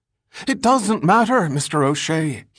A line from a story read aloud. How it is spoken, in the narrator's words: he pleaded